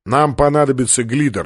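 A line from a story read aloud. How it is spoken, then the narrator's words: Plain. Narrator (Russian): сказал полубой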